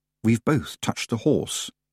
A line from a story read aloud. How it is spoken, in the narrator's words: she said under her breath